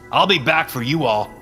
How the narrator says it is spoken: I shouted to the trees

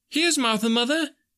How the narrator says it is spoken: cried the two young Cratchits

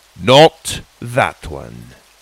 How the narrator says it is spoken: Magborne ordered, his voice more stern than before

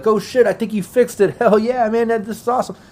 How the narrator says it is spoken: that other guy's yelling out

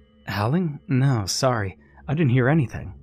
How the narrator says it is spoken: Alice said

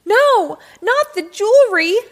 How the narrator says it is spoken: I screeched

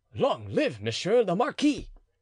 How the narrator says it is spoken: the soldiers, who cried in chorus

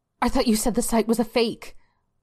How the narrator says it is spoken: Belinda blurted out

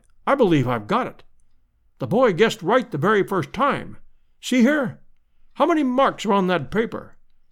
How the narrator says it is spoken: he cried

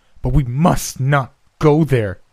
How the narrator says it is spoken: she cried

